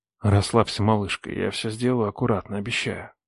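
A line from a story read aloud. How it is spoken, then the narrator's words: Whisper. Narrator (Russian): прошептал я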